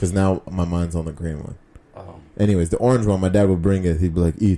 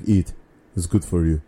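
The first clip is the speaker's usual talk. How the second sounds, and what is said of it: Put-on Russian accent. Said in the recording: “I don't know why I'm doing a Russian accent. That's so weird. I can't do my dad's accent.”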